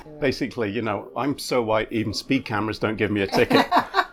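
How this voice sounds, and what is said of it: Non-American immigrant accent. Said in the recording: “probably my accent, I'm not from South Philly, right? And coming as an immigrant to the country”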